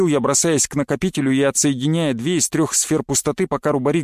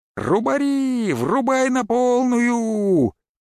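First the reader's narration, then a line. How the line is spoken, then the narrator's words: Shout. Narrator (Russian): крикнул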